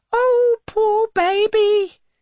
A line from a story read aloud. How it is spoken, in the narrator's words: cries over his lamentations